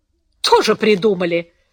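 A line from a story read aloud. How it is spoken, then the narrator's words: Irritated. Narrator (Russian): раздраженно сказал Хиль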